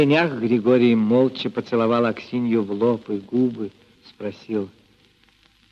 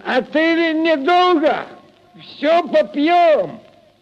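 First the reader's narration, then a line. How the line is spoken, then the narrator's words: Drunken shout. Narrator (Russian): Захмелевший Прохор крикнул вслед им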